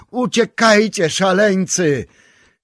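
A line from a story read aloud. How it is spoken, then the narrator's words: Another shout. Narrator (Polish): krzyknął jeszcze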